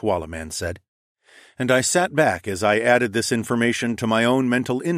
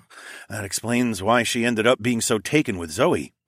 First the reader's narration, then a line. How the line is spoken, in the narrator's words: I snorted